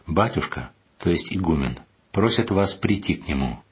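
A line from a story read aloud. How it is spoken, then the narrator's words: Calm. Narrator (Russian): И какой-то послушник спокойно сказал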